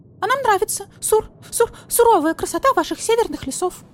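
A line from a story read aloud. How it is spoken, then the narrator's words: Frightened squeak. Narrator (Russian): испуганно пискнула сурикатиха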